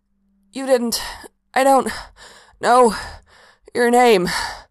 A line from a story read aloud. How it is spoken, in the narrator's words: Mikael gasped out, a bit hampered in the process of coming up with a complete sentence